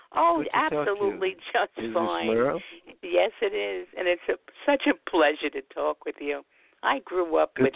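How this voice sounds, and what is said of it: New York accent. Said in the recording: “by your accent that you are like myself, a New Yorker ... Yes, New York, Queensite”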